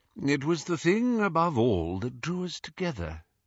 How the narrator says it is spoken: he said quietly

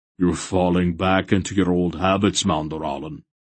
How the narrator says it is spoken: Barak observed in a grumpy voice

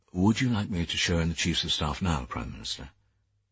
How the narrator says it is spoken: He said quietly

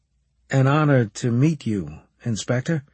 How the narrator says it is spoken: I said

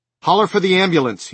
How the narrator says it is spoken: he snapped at Masterton

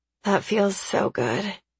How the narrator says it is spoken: I moan

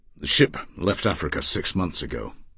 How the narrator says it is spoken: he said coldly

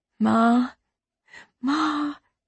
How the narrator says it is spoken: she whispered

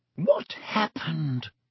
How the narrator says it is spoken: Madame Pomfrey whispered to Dumbledore

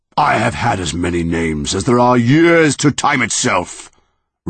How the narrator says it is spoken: roared the monster

